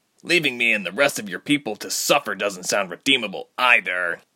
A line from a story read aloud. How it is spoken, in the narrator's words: Tyke spat